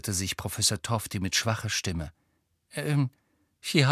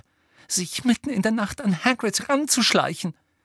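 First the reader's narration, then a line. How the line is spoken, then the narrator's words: Breathless, furious gasp. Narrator (German): keuchte Hermine, die so zornig war, dass sie kaum reden konnte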